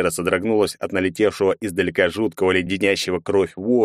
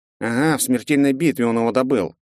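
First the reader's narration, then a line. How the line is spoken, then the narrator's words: Grumbling mage. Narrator (Russian): пробурчал маг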